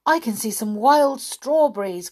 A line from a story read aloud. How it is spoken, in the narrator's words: cried Beth